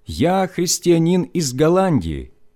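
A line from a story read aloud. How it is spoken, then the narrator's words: Loud, deep breath, German. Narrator (Russian): набрав полную грудь воздуха, я громко сказал по-немецки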